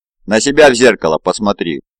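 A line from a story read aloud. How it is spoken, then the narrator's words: Sullen snapping retort. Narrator (Russian): угрюмо огрызнулась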